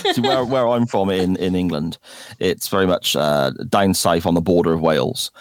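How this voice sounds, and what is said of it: British West Country accent. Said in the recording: “a very lovely accent ... a British guy ... to everyone around, I sound like a farmer”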